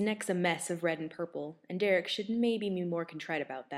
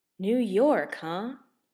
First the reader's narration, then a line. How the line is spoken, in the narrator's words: Stiles asks lazily